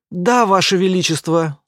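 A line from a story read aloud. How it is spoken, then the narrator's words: Mumble. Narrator (Russian): уже промямлил так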